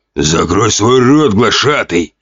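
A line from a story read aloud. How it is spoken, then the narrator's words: Orc's growl. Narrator (Russian): прорычал сидевший на троне орк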